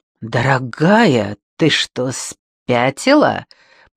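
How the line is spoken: Growling orderly. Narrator (Russian): прорычал санитар

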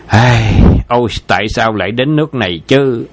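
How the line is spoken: Sighing. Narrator (Vietnamese): Lý Tịnh thở dài

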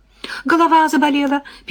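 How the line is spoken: Squeaking. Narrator (Russian): пищала я

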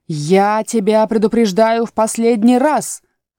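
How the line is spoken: Shouting. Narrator (Russian): крикнула королева

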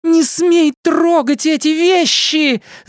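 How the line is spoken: Shrill shriek. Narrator (Russian): завизжала она

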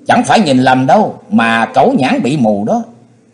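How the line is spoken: Young man, faint scornful smile. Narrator (Vietnamese): Thanh niên chỉ cười nhạt rồi nói

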